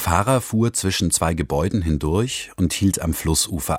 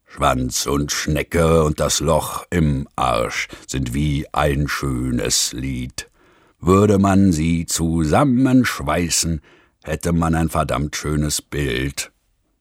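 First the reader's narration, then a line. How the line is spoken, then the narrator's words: Rough-voiced singing. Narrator (German): mit rauer Stimme zu singen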